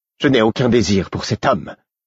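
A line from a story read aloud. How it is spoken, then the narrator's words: Icy, carefully articulated. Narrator (French): dit-elle d'une voix glaciale, en articulant soigneusement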